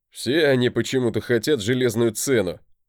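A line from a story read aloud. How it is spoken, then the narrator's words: Forced laugh. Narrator (Russian): рассмеялся Тормод в ответ, но вышло у него это слегка натянуто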